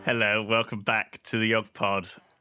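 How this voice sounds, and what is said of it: Creepy voice. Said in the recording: “Don't do that, that's creepy. Don't do a creepy voice.”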